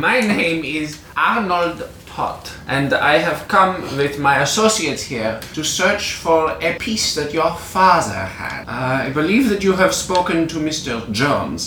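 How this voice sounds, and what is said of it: Put-on German accent. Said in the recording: “doing a German accent”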